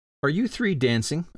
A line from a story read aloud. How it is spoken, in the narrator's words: a voice suddenly piped up